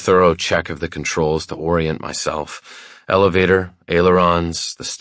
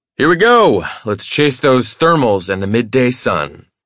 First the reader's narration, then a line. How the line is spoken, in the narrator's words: shout above the shrill whine of the Cessna's engine